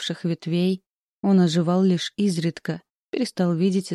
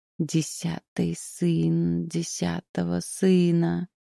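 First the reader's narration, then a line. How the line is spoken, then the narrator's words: Hiss from underground. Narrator (Russian): прошипел он из-под земли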